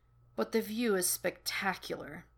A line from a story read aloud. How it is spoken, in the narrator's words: he mumbles